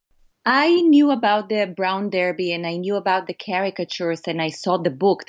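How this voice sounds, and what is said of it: Israeli accent. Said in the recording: “you can tell by my accent that I am from Israel”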